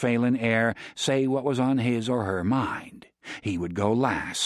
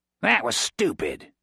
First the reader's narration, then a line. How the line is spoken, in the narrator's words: Grit snarled back